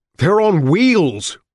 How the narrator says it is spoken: Richard yelled back

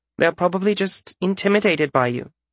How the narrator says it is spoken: she said, her tone hopeful but not convincing

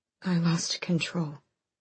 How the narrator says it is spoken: Aelin said hoarsely

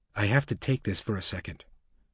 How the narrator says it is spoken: Diamond whispered to Jennifer and Nellie

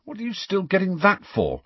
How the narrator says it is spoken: said Harry irritably, thinking of Seamus

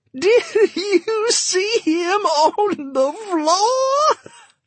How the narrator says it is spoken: laughing so hard she could scarcely get the words out

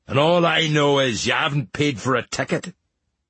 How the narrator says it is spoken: the captain growled

